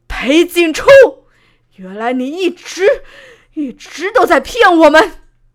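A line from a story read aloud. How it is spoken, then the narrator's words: Angry roar. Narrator (Chinese): 怒吼出声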